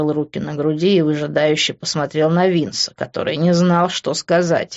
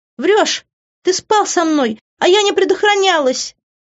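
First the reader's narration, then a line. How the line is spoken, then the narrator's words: Screaming. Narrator (Russian): вопила Иви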